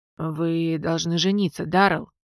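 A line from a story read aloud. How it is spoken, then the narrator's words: Tired fearless mutter. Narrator (Russian): устало, без капли страха пробормотал королевский маг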